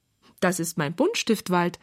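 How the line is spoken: Plain. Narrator (German): sagt Tante Jenny

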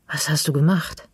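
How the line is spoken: Hoarse question. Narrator (German): frage ich heiser

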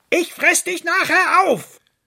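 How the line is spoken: Called after. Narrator (German): rief ihm der Fuchs hinterher

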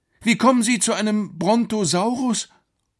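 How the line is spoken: Calling out. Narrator (German): rief Alex

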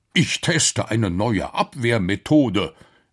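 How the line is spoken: Professor calling out. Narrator (German): rief der Professor

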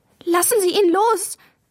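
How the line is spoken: Tearful cry. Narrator (German): rief Maja, und in ihre Augen kamen Tränen

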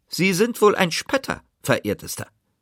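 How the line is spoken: Two sharp voices asking. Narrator (German): fragten die beiden mit spitzer Stimme

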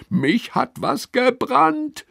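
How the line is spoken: Screaming. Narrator (German): schreit Lilly

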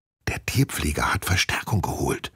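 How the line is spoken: Whispered. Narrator (German): flüstert sie

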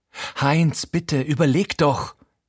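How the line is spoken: Gasping. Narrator (German): japst

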